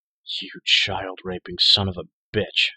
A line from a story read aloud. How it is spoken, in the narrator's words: snarled